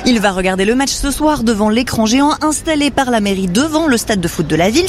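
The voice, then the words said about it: Noticeable accent. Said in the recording (French): “bravo pour l'accent”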